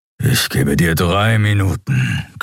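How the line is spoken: Growled. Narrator (German): knurrte Keru

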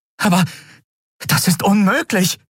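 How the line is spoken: Astonished exclamation. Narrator (German): rief sie aus

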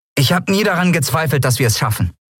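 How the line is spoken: Plain. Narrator (German): sagte Miko

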